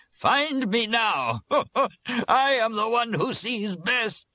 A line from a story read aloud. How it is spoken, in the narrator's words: we heard the laughter of Jorge, who said